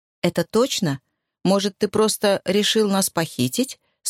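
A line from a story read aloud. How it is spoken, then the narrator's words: Plain. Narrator (Russian): спросила Энни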